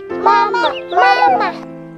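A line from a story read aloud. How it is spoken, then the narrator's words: Eager small tadpole calling. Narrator (Chinese): 小蝌蚪看见头顶上有两只大眼睛，嘴巴又阔又大，心想一定是妈妈来了，追上去喊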